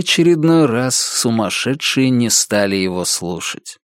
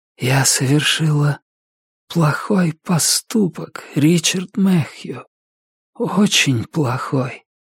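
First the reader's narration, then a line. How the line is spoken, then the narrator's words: Sad whisper. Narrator (Russian): печально прошептала охотница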